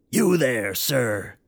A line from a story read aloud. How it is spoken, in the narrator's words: the clown rasped